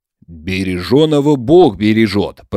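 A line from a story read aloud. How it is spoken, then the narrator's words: Deep bass voice. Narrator (Russian): пробасил Захарий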